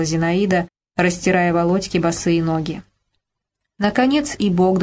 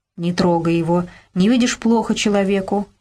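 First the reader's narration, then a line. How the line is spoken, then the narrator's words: Plain. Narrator (Russian): ответила Зинаида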